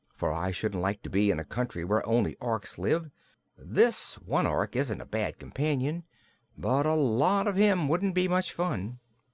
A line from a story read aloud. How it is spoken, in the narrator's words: whispered Trot to Cap'n Bill, so softly that the Ark could not hear her